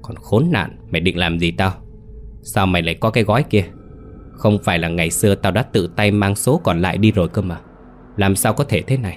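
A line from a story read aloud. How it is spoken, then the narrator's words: Hissing through teeth. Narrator (Vietnamese): Điệp nói như rít qua kẽ răng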